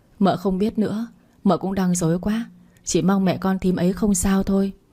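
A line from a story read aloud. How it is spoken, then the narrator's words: Sighing worried reply. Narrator (Vietnamese): Tôi thở dài đáp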